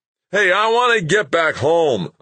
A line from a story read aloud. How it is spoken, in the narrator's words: a man hollered